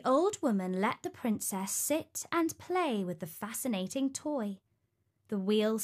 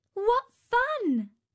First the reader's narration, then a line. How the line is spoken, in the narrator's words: exclaimed Talia